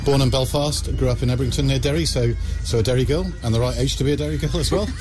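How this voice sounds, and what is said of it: English accent. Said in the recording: “you're listening to me with an English accent here”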